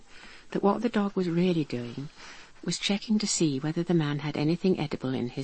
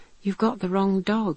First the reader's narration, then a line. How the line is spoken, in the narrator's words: cried his friend